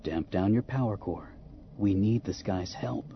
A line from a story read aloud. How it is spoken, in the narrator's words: Han said more gently